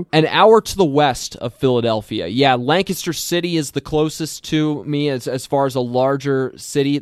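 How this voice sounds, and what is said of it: Slight Pennsylvania accent. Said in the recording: “has a bit of an accent for us Minnesota folks, because you're not a Minnesotan ... I'm from Lancaster County, Pennsylvania”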